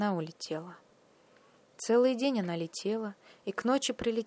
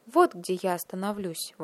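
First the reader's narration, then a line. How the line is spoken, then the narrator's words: Exclamation. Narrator (Russian): воскликнула она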